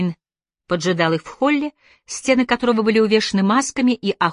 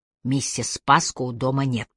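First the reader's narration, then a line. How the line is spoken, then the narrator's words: Whispered. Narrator (Russian): прошептал Аллейн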